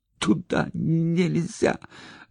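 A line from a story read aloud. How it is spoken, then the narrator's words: Strained, forced out. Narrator (Russian): выдавил Санька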